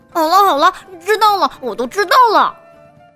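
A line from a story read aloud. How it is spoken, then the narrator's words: Impatient, loud, interrupting. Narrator (Chinese): 小熊不等妈妈说完，就嚷嚷起来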